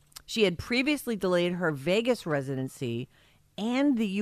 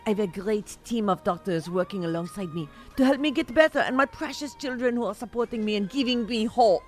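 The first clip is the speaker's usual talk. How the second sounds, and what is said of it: Put-on French accent. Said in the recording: “That's my French accent.”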